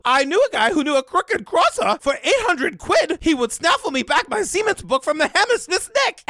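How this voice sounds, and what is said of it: Put-on accent drifting into Grover voice. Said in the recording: “You can't say it without doing the accent ... Every time you do an impression, it just goes to Grover.”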